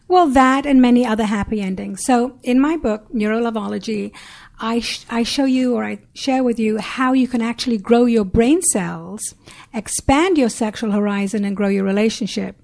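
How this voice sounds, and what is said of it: Sexy accent. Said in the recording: “With her sexy accent, she can say anything”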